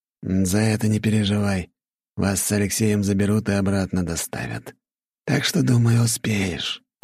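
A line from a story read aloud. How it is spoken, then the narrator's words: Hiss. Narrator (Russian): прошипел Жемчужников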